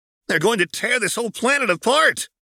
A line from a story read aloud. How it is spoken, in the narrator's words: Krillin shouted, his voice barely audible amongst the rambling